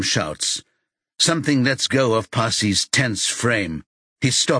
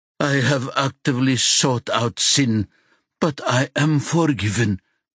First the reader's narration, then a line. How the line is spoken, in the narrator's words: he says wearily